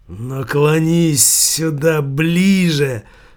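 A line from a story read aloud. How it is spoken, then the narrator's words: Angry hiss. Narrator (Russian): злобно прошипел Савиньи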